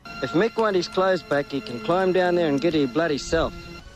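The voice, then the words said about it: Hard-to-understand strong accent. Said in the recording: “just because of the accent”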